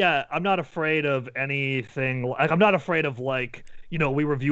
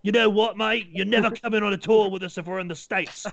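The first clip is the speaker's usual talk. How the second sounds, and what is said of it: Imitated Australian accent. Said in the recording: “if he has that exact accent... You're not from Australia anymore.”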